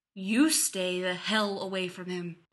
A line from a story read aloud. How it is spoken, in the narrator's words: he growls